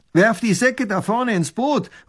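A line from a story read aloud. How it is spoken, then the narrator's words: Robber calls out. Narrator (German): ruft der Räuber tunichtgut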